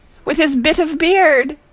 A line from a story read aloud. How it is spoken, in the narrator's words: Deuce gave full vent to a splendid yell, a full yell of full woman, delight, joy, indignation